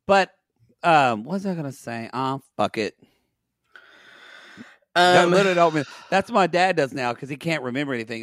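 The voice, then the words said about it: Hoarse, strained, worn-out voice. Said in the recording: “My voice is fried. ... I can hear your voice is just crying out.”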